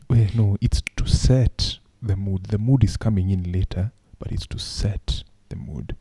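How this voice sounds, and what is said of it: Late-night sexy voice. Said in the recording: “why I'm talking like this, it's to set the mood ... late ... Night sexy voice”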